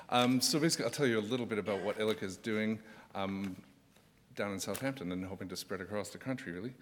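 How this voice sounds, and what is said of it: Canadian accent. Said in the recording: “I'm from Canada, so I'll apologize for the slightly dodgy English accent if it's coming across.”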